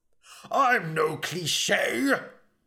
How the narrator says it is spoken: bellowed Elric

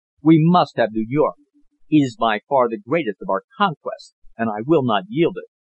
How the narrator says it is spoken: he said firmly

